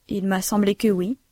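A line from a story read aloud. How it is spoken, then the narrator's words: Plain. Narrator (French): dit Bertolini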